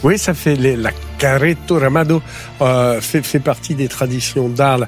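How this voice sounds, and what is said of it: Occitan southern French accent. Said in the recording (French): “Quel accent occitan.”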